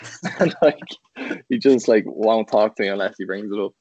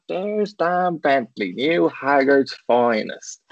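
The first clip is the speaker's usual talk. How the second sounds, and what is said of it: Spot-on impression of a friend. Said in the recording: “we definitely should have done Rob as an accent for you, because that was spot on”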